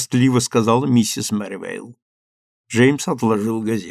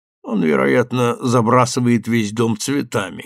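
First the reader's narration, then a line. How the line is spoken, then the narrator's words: Muffled mutter. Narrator (Russian): буркнул Джеймс из-за газеты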